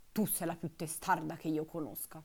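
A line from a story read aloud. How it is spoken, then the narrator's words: Muttered by old duck. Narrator (Italian): borbottò allora la vecchia anatra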